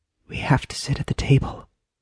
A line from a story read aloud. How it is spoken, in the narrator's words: JJ whispered into Maggie's ear